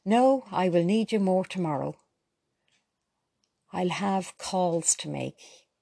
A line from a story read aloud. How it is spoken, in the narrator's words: he answered